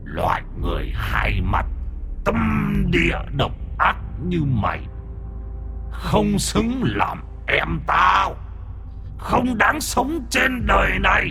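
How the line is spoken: Tiger's growling human voice. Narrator (Vietnamese): Âm thanh gầm gừ ở trong cổ họng con hổ, nó nói ra tiếng người

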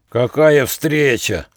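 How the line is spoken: Snarling, grinning shout. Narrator (Russian): оскалив зубастую пасть, ухмыляясь, крикнул вожак

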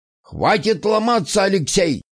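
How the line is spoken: Barked. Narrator (Russian): рявкнул он

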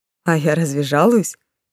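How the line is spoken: Giggling cat. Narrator (Russian): хихикнул гадский котик

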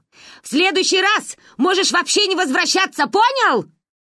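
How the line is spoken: Triumphant shout. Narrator (Russian): крикнула торжествующе

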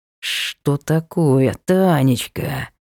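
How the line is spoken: Angry insect-like whisper. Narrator (Russian): злым насекомым шепотом спросил ее муж

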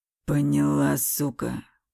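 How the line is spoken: Hissed in the face. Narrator (Russian): прошипел он в лицо

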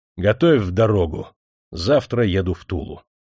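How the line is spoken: Stern. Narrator (Russian): Николай Никитич сказал строго

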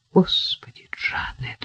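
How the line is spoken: Whispered. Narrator (Russian): прошептал

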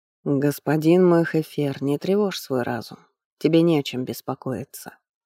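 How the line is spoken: Soft gentle. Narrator (Russian): мягко проговорил жрец

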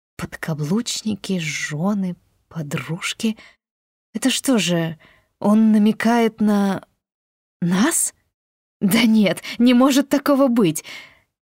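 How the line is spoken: Confused mutter. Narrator (Russian): Я растерянно пробормотала

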